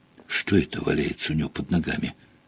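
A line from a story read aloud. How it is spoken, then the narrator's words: Whisper. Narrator (Russian): прошептала Гермиона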